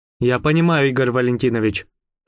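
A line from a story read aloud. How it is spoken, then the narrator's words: Forced calm. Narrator (Russian): сказал я, стараясь, чтобы мой голос звучал спокойно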